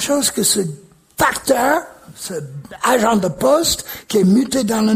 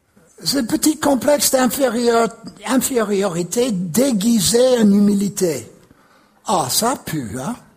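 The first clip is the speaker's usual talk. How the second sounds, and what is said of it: Imitates a regional northern French accent. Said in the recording (French): “J'essaie d'imiter l'accent.”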